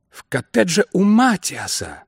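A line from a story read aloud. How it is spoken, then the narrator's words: Exclamation. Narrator (Russian): воскликнул он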